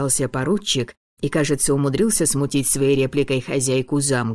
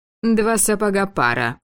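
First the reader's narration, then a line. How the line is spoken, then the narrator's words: Amused snort. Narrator (Russian): хмыкнула графиня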